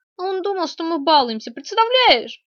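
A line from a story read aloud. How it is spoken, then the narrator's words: Indignant young woman asking. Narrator (Russian): возмущенно спросила девушка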